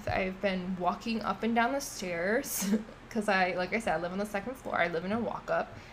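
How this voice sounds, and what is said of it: Out of breath, tired voice. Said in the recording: “I'm really, really tired. I'm out of breath.”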